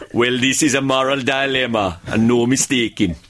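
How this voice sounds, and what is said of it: Broad West Indian accent. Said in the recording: “my internal monologue is broad West Indian.”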